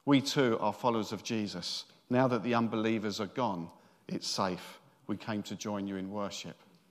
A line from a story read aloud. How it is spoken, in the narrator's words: said in a very calm voice